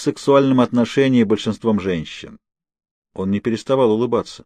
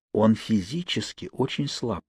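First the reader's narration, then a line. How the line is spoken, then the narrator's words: Whispering. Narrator (Russian): шепнул я Сэмпсону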